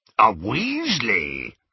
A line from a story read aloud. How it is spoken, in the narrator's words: rasped Greyback